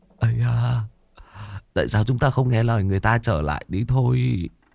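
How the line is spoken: Slightly trembling voice. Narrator (Vietnamese): Tên béo xấu xí có chút run run nói với vị công tử

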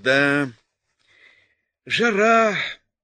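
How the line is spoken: Sighing, coughing, conversational. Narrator (Russian): Видимо, желая завязать разговор, он вздохнул, покашлял и сказал

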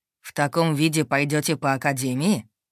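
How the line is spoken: Scoffing snort. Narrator (Russian): хмыкнул ректор

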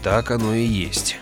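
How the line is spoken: Gloomy. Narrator (Russian): мрачно произнес Грегор

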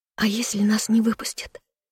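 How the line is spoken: Faint squeak. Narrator (Russian): пискнула едва слышно

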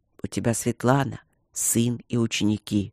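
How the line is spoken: Gentle explanation. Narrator (Russian): объяснил мягко

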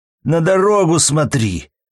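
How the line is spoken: Frightened passenger shouting. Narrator (Russian): крикнул вжавшийся в кресло пассажир

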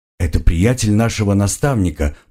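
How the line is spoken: Grumbling. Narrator (Russian): буркнул я

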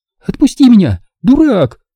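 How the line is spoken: Screaming. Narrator (Russian): завопила она

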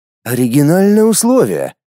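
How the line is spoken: Doubtful snort. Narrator (Russian): недоверчиво хмыкнул я в ответ

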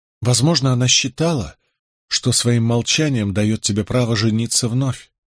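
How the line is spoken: Gentle objection. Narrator (Russian): мягко возразила Изабелла

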